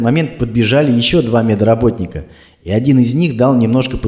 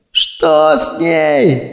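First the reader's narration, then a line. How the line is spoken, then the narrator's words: Yelling. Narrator (Russian): заорала Ольга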